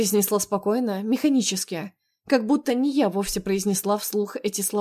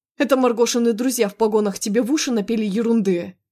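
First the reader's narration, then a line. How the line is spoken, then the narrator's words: Roar. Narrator (Russian): взревел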